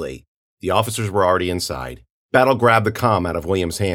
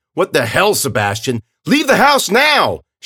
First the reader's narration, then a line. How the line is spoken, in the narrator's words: Shouts from inside